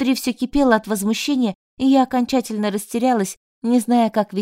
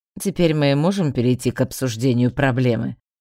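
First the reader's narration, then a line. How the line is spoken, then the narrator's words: Lazy clarifying question. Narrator (Russian): лениво уточнил он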